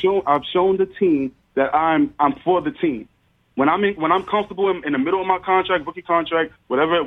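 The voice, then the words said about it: New York accent. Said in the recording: “somebody with a New York accent”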